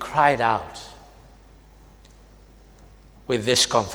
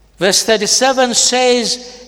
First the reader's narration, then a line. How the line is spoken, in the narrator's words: he cried out with a loud voice